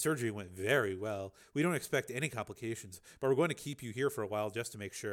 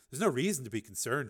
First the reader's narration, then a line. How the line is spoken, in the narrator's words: she said